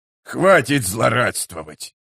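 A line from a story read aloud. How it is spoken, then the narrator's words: Disgusted grumble. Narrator (Russian): проворчал Гиборик с отвращением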